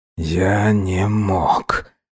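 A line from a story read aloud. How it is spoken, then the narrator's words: Very quiet. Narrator (Russian): очень тихо произнес Салхаб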